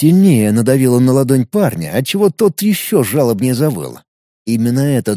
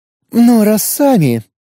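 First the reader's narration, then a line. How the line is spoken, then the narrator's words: Sigh. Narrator (Russian): вздохнула Крис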